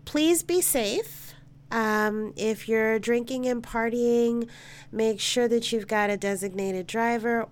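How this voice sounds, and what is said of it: Slightly raspy voice. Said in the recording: “if I sound a little raspy. ... I am getting over a cold”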